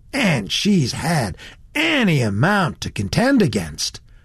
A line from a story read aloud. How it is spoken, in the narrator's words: ended the young man warmly